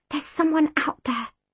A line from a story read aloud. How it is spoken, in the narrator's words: I whispered